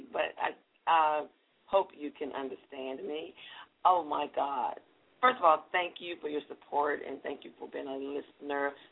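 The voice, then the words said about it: Slightly raspy voice. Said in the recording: “Excuse my voice, it's a little raspy,”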